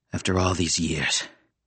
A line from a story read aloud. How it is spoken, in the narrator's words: he said grimly